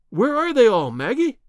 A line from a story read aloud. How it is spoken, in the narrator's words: I cried